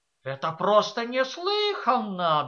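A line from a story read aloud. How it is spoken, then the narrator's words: Indignant exclamation. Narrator (Russian): Толстая дама с возмущением воскликнула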